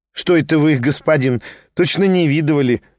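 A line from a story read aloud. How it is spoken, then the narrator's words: Peasant woman laughing. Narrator (Russian): рассмеялась баба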